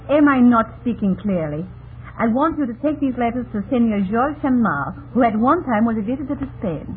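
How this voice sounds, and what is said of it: Woman with a Spanish accent. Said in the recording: “her unusual accent ... I come from Spain. I am Spanish, you see.”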